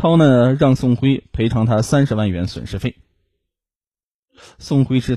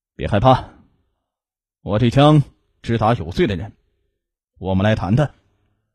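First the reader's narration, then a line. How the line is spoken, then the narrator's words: Flat, expressionless. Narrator (Chinese): 王涛面无表情的说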